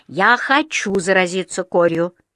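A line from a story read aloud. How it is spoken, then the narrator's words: Irritated declaration. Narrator (Russian): заявил он раздраженно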